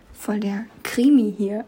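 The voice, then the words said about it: Whispering. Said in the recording (German): “ich muss flüstern.”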